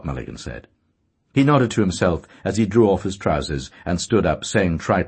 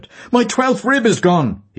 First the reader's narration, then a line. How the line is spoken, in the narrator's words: he cried